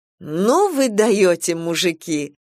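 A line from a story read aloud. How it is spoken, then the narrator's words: Laughing. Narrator (Russian): рассмеялась Алла Дмитриевна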